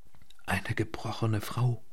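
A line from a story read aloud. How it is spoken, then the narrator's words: Whispering. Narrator (German): flüsterte sie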